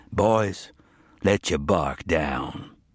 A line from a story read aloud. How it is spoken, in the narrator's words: said Haddon Marr, his voice low and calm, but carrying both a threat and an authority that needed no further statement